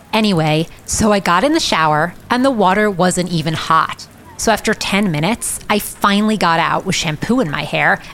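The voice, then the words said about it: Loud American-accented female voice. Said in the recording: “some kind of tourist, American from the accent, who is jabbering on her cell phone at top volume”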